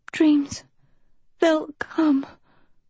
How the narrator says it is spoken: Sophie wheezed

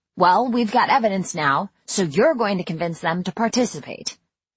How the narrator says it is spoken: I said

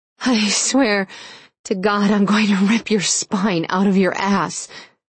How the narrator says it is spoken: she panted

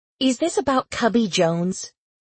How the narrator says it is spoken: She asked impatiently

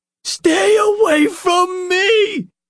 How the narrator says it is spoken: he screamed

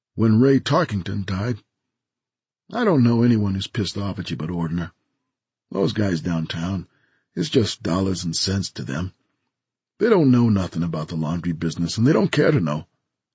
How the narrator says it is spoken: Tom said evenly

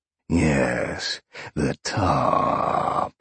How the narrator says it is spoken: Sean purred, grinning

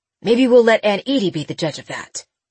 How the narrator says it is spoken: he snapped

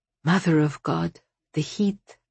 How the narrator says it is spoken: comforted, and said

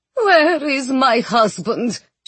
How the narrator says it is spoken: She moaned

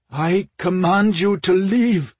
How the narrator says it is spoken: Ore ordered in a trembling voice

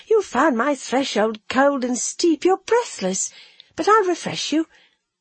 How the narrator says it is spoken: she said merrily

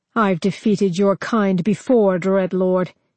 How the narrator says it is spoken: he snarled

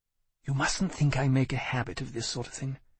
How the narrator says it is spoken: she murmured

